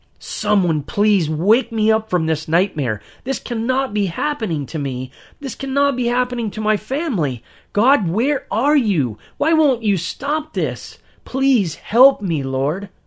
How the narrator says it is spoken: I was still screaming in my mind

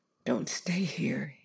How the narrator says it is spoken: he whispered

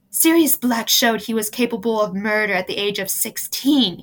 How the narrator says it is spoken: he breathed

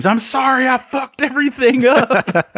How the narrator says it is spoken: his wife screams

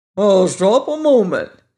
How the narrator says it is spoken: exclaimed Jack

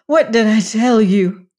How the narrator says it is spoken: cried Bess

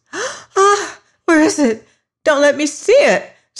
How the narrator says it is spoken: screamed Molly

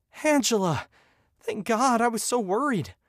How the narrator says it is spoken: gasped for breath

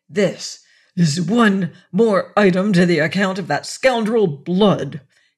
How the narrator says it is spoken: he said through his teeth

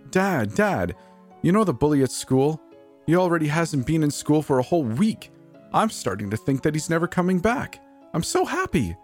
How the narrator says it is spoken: shouts in glee

